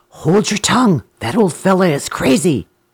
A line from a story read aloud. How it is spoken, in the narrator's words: Sungura whispered to Buku